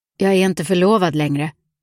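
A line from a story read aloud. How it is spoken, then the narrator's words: Firm voice. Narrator (Swedish): sa han med fast röst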